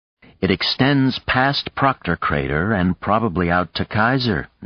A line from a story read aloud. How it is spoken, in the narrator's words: Nadia said